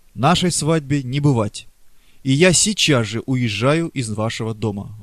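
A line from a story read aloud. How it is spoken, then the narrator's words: Exclaimed, almost angry. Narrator (Russian): воскликнула она, почти с гневом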